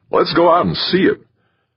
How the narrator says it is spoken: Sal Hasdrubal's voice called out

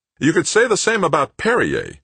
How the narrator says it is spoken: Brennard snapped

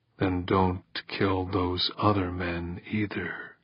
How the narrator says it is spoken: Dorn said softly

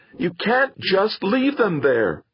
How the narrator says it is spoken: Tears in his eyes, Theo leaned over his father's broad shoulder and shouted into his face

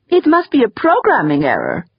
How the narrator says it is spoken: he whined in falsetto, mimicking Wexler's penetrating nasality

